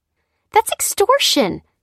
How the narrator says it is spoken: cried Lucy

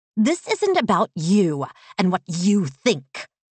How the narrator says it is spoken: Bree snapped

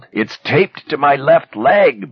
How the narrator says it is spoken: Bassett cried

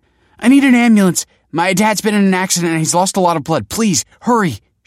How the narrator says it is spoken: cried

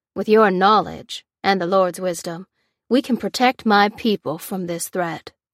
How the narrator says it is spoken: he said solemnly

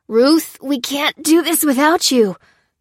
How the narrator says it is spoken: groaned Lucy, heaving on the ropes

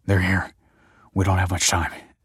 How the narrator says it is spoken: said Michael breathlessly

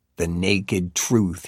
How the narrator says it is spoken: hisses

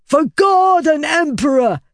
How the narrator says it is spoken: the young man shouted

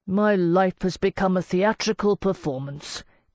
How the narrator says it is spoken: Pasternak moaned

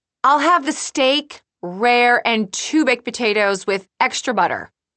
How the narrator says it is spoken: Julie, she's practically shouting

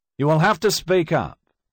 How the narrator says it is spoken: One of the judges called out

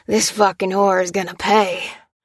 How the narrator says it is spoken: growled the leader, panting as he caught up

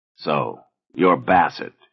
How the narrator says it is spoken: he growled

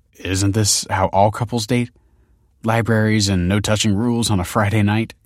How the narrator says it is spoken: chuckled Michael

